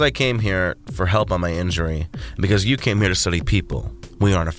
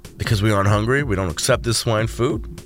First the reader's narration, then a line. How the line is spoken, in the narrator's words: Zach chuckled